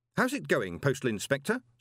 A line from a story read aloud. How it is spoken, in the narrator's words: said Moist cheerfully